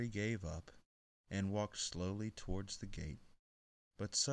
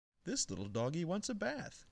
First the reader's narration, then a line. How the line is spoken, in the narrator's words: cried the little girl